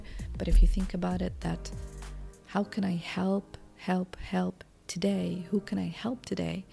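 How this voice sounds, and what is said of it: Low, quiet, subdued voice. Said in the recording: “I'm not so active and my voice is low because my baby is sleeping”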